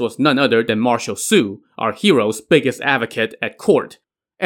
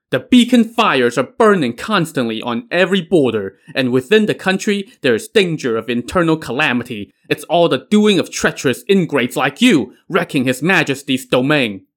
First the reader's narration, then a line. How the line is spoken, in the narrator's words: somebody suddenly shouted